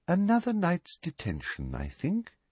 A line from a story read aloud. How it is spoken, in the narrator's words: she said softly